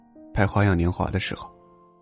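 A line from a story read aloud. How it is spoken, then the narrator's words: Soft. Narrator (Chinese): 梁朝伟轻声说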